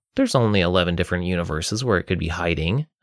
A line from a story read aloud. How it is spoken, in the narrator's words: I said sarcastically